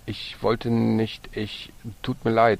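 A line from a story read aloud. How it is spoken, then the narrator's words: Stuttered. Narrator (German): stotterte Marco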